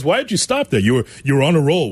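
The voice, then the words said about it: Imitates another person's voice. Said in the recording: “excellent Freddie impersonation”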